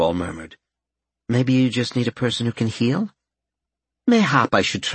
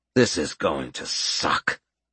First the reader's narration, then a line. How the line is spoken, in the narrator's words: Gerald muttered